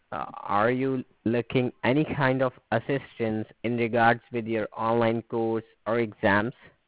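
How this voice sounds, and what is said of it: Hard-to-understand accent. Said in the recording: “because of your accent, I'm not making out what you're saying”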